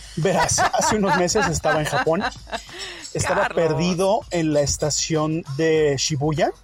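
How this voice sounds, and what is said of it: Deep radio announcer voice. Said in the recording (Spanish): “¿tienes mentándole voz de locutor?”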